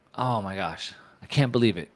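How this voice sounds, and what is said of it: Sarcastic mock surprise. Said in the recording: “I'm saying that sarcastically.”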